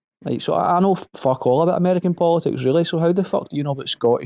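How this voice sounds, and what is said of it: Glasgow Scottish accent. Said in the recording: “How could you pick my accent to a fucking city as well? ... I know a part of Glasgow you're also from”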